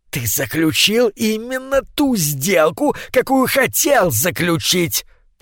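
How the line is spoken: Hissing, hunched man. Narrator (Russian): прошипел скрюченный человек

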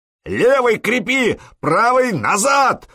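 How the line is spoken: Roaring. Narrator (Russian): взревел Простен

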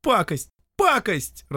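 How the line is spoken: Disappointed yell. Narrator (Russian): разочарованно заорал Дюша

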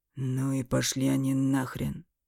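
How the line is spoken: Muffled grumble. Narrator (Russian): буркнул Эмиль, все еще прижимая к носу салфетку

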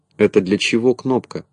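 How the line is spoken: Plain. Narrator (Russian): спросил Незнайка

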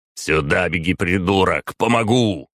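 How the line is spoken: Barking. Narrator (Russian): рявкнул я

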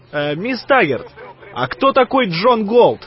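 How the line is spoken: Shouted after someone. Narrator (Russian): крикнул он ей в спину

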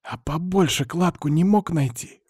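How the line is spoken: Indignant hiss. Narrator (Russian): возмущенно прошипела подруга

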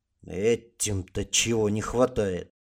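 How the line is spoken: Grumbling. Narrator (Russian): проворчал Гард

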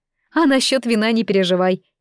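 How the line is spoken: Silly laughter. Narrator (Russian): Ида глупо рассмеялась

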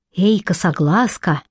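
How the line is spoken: Whispered. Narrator (Russian): Услышав шепот

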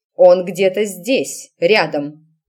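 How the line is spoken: Sharp, cutting off. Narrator (Russian): резко оборвала матушка

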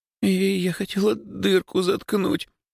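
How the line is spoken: Babbling. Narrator (Russian): залепетала Лёлька

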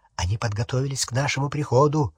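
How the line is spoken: Whispered. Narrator (Russian): прошептал Гарри

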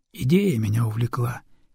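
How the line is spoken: Quiet reply. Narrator (Russian): тихо ответил Гатов

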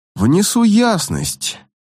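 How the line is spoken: Calm. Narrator (Russian): спокойно сказал Нянзу

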